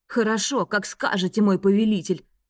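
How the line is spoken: Snorting. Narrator (Russian): фыркнул Клеменс

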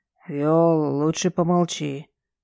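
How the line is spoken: Hoarse father. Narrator (Russian): хрипло говорит отец

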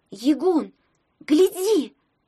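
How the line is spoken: Sudden shout. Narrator (Russian): вдруг крикнула Таня

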